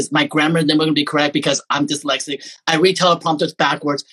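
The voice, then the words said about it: Taiwanese-accented English. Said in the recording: “I always gonna have this Taiwanese screwed up accent because I lived so many different places”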